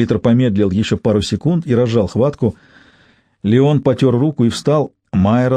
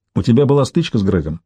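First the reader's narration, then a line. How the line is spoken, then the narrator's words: Plain. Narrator (Russian): спросил Майрон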